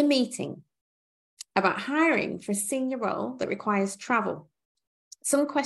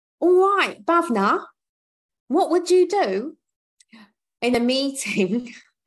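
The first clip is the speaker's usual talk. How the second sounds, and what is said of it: Put-on London accent. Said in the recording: “Is that your best London accent? ... That's my best London governor accent”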